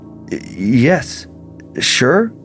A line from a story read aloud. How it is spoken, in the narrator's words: mumbled